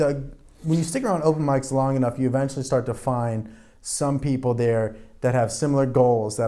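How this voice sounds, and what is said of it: Usual voice. Nothing is said of it.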